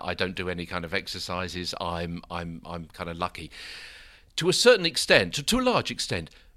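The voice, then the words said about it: British accent. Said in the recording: “how do I get a voice like yours? ... Well, I guess be born in the UK ... if you've got an accent that's a little different from yours”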